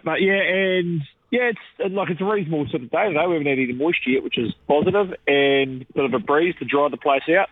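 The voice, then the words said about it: Rough voice from a cold. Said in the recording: “battling the elements as well as a cold ... Excuse my voice. I'm sort of still coughing and spluttering a bit.”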